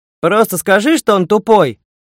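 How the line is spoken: Shout from another room. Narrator (Russian): крикнул Слава из соседней комнаты

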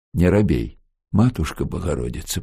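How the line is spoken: Muffled mutter. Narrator (Russian): пробормотал Демочкин под марлевой повязкой

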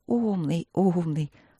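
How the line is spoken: Affectionate praise, sister. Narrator (Russian): ласково похвалила сестра

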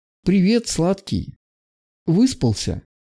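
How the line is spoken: Gentle smiling question. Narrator (Russian): Ласково с улыбкой спросила Ника

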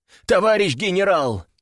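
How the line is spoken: Exclaimed. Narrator (Russian): воскликнул он

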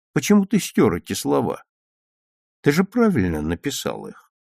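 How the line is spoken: Gentle question. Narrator (Russian): ласково спросил он

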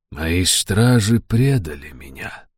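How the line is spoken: Soft, gentle. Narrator (Russian): мягко проговорил Джадефер

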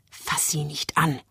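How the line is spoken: Hissing woman. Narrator (German): zischt die ideale Geliebte

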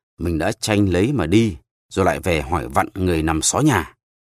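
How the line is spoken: Old man snapping irritably. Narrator (Vietnamese): Cụ ông nhăn mặt lại gắt

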